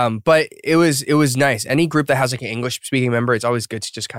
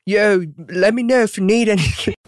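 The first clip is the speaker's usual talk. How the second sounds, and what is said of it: Bad put-on Australian accent. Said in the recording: “in his Aussie accent. Ozzy ... Sorry, that's horrible.”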